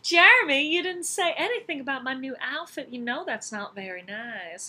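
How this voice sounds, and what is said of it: Put-on Southern accent. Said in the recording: “I can't speak Southern and, like, take myself seriously.”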